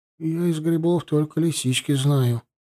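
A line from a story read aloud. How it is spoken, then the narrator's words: Sad. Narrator (Russian): грустно сказал наш повар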